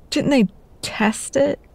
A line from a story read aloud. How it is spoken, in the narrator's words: Madison spluttered